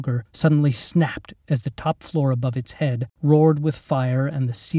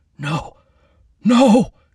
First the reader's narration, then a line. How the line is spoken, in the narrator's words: Captain Munro gasped